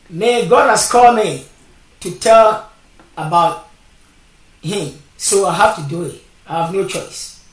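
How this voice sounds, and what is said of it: Strong non-native English accent. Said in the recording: “I got a big accent ... listen to my English, because I have a big accent”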